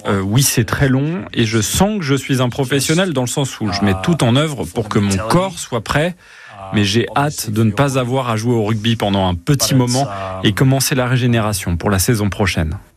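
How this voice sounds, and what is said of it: Remarkable accent speaking French. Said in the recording (French): “cet accent assez formidable”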